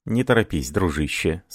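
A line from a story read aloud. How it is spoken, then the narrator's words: Plain. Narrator (Russian): сказал ему Паскуаль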